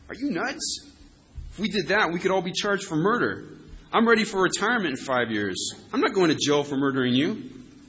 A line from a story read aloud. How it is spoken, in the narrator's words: One of the big guys barked in his left ear